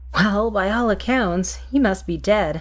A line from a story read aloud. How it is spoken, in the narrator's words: he chuckled